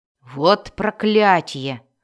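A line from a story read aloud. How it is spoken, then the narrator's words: Giant's roar. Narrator (Russian): проревел один из исполинов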